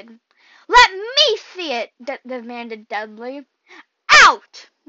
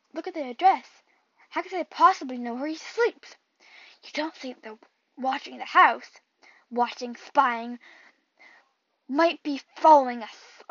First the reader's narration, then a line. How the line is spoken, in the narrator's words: muttered Uncle Vernon wildly